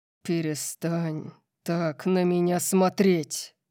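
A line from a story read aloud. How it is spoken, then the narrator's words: Terrifying growl. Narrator (Russian): Прорычал он, его ужасающего тона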